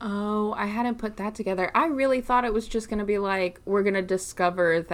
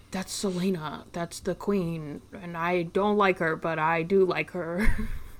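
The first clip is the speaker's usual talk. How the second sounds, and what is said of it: Impression of Kael. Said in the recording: “good Kael impression”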